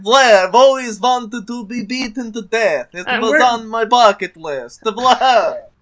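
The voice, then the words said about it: Vampire voice, Adam Sandler-like. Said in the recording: “When you become a vampire, you just start to sound like this... This is what all vampires eventually sound like... Now you just Adam Sandler.”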